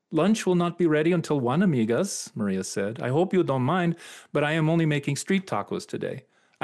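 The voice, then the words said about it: Imitated Spanish speaker's accent. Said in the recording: “your imitation of a Spanish speaker's accent.”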